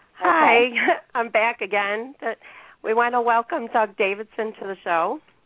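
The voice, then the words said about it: Squeaky, failing voice. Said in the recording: “my voice is going. ... with my squeaky voice.”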